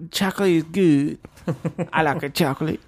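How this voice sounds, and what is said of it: Put-on Colorado accent, bad impersonation. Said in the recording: “that's my Colorado accent ... it's almost like John Travolta from Pulp Fiction ... It's like a bad impersonation of that.”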